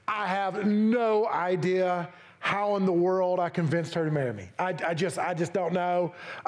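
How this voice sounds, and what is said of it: East Tennessee accent. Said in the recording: “I'm still got my East Tennessee accent. You'll hear that when I say stuff like metaphor.”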